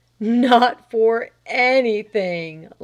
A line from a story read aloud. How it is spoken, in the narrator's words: laughed Delcote quite suddenly